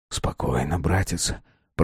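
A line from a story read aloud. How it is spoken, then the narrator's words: Whispered. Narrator (Russian): прошептал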